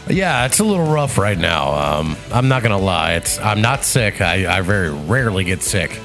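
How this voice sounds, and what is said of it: Congested, clogged-up voice. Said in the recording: “You sound congested, man ... I'm clogged up, man ... I was starting to get a sore throat”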